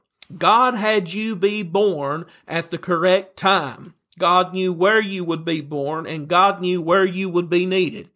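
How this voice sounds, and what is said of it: Tennessee Southern accent. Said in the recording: “I'm just a preacher from Tennessee, and you can probably tell that by my accent that you're hearing right now... you're from the hills. You're a hill person.”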